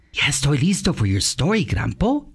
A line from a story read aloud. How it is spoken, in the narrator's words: he whispered